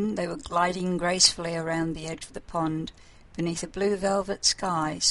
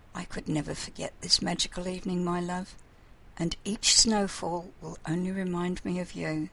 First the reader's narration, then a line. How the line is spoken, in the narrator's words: she murmured